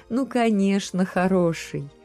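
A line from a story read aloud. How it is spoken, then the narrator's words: Loud sigh. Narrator (Russian): Кирилл опять громко вздохнул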